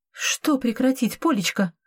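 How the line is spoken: Frightened voice. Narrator (Russian): Ее голос звучал испуганно

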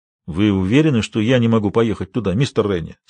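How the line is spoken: Plain. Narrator (Russian): спросил Картер

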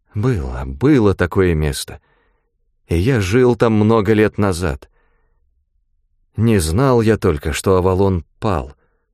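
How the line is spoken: Trembling voice. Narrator (Russian): Ганилон проговорил дрогнувшим голосом

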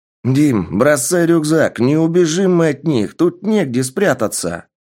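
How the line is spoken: Loud, breathless young man. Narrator (Russian): Громко сказал парень, что уже тяжело дышал от продолжительного бега

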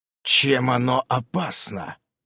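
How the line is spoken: Hoarse wheeze. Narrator (Russian): я почему-то захрипел

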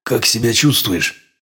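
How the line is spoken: Hoarse question. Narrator (Russian): хрипло спросил я

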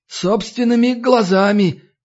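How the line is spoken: Sobbing. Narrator (Russian): Никодим всхлипнул

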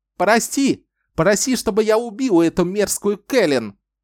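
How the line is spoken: Frantic scream of pain. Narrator (Russian): Ричард истошно завопил от боли

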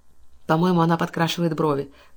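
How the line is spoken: Envious whisper. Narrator (Russian): шепнула миссис Хадлстоун, с завистью

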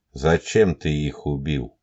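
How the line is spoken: Muffled calm question. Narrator (Russian): глухо, но спокойно спросил Елисеев

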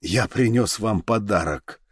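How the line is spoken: Muttered. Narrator (Russian): пробормотал он

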